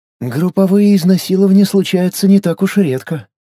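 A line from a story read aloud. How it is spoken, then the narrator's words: Sighing. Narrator (Russian): вздохнула Таиса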